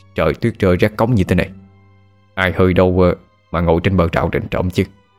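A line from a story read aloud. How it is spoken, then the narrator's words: Muttering to himself. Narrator (Vietnamese): Bố không mắng tôi, mà chỉ lẩm bẩm như thể đang nói với chính mình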